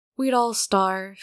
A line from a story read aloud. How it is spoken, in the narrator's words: Hyunjin says sadly